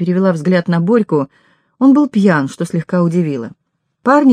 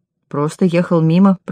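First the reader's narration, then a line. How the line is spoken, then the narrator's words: Grumble. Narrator (Russian): проворчал он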